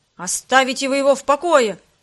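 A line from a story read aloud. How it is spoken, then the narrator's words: Angry shout. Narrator (Russian): закричал он, сжимая кулаки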